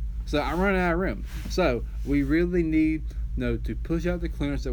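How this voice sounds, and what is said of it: Usual voice. Nothing is said of it.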